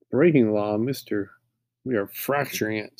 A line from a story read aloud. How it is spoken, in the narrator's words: Louis laughs and says